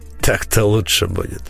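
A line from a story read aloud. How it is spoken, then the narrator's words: Satisfied snort. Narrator (Russian): удовлетворенно хмыкнул маг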